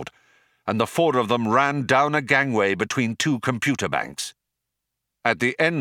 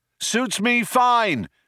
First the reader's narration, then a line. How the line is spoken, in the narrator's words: shouted Zaphod back